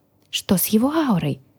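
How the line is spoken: Whisper. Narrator (Russian): шепнула я

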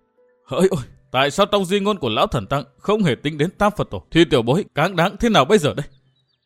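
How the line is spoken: Choked muttering to himself. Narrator (Vietnamese): Chàng nghẹn ngào lẩm bẩm một mình

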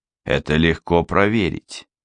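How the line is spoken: Calm reply. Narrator (Russian): спокойно отозвался Глеб

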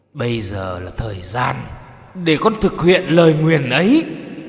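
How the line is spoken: Harsh, emphatic. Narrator (Vietnamese): bà con gằn giọng

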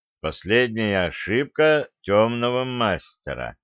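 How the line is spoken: Slow reading aloud. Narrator (Russian): медленно прочитал

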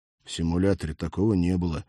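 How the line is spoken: Guilty mumble. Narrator (Russian): виноват пробормотал Олег

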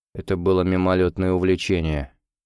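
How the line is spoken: Gloomy mutter. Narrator (Russian): хмуро пробурчал Косоногов

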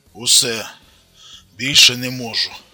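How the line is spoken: Exhaled words. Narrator (Russian): Выдохнул Тарас

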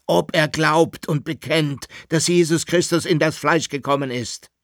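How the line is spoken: Emperor shouting very loudly. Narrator (German): rief der Kaiser jetzt mit überlauter Stimme

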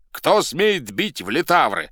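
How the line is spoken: Shouted. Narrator (Russian): закричал он

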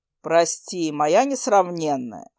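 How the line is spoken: Smirking. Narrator (Russian): хмыкнул он

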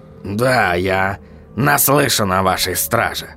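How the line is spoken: Snort. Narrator (Russian): хмыкнул господин Кноп

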